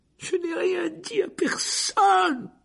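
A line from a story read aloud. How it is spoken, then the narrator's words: High-pitched cry. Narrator (French): s'écria Hermione d'une voix aiguë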